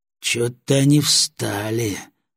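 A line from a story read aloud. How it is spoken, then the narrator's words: Thoughtful reply. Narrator (Russian): задумчиво ответил Батоныч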